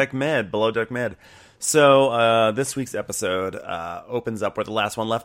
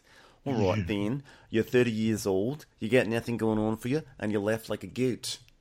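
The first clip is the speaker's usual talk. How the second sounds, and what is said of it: Put-on Zimbabwean accent. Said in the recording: “my fake Zimbabwe accent”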